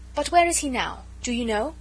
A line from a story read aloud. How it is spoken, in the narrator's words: asked eagerly